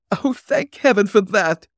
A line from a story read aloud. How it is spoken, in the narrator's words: cried the girl